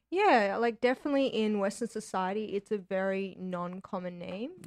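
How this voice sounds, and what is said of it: Australian accent. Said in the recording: “So you have an accent. ... Australia.”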